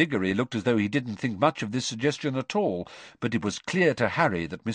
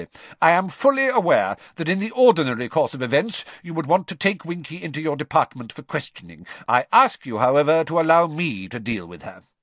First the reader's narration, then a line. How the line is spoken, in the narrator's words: Crouch, curtly